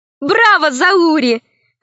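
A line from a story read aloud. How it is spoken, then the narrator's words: Laughing. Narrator (Russian): засмеялась Алиса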